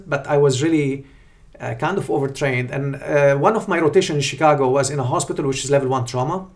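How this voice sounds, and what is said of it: Non-native foreign accent. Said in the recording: “Even now you have an accent, but my English was really very rough with a very strong accent.”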